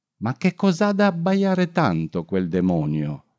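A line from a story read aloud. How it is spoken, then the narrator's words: Exclaimed. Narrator (Italian): la Befana ... esclamava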